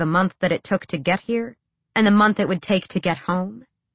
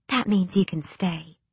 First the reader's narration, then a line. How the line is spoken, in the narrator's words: Ansel whispered